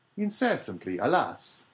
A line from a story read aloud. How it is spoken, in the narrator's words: cried the abbé